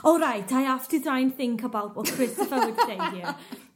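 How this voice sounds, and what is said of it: Good put-on accent. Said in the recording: “That was a really good accent.”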